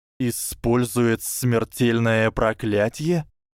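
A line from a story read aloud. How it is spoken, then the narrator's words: Incredulous hiss. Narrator (Russian): недоверчиво прошипел Гарри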